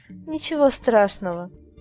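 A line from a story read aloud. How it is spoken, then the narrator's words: Laughing. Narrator (Russian): рассмеялась девушка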